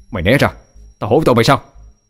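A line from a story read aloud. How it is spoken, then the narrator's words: Roaring. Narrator (Vietnamese): Định Thiên gầm lên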